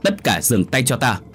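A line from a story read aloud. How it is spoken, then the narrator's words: Shout. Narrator (Vietnamese): phía bên kia có tiếng quát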